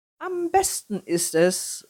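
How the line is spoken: Exuberant, slightly proud call. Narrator (German): rief übermütig und auch ein wenig stolz

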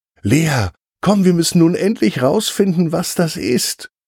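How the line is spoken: Very excited call. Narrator (German): ruft ganz aufgeregt zu

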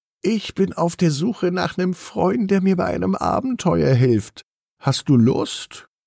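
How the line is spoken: Excited purring. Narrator (German): schnurrt aufgeregt

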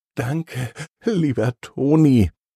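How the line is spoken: Trembling voice. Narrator (German): sagt sie mit zitternder Stimme

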